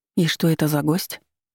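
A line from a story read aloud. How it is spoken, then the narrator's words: Whispered question. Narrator (Russian): шепотом спросила я у Кина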